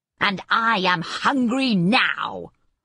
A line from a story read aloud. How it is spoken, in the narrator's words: roared the wizard